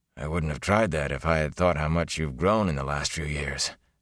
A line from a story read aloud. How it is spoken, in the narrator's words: Tam said softly